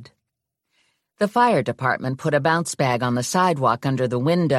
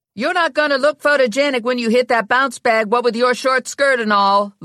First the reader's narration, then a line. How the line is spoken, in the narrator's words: Lula yelled at Ginny